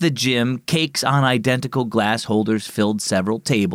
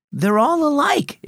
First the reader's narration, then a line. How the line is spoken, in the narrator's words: exclaimed Sophia